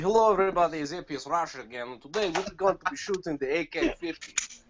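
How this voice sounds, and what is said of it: Fake Russian accent. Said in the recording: “the uh, Russian accent ... a fake Russian accent”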